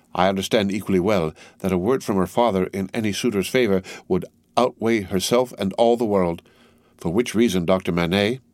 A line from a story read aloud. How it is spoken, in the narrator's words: said Darnay, modestly but firmly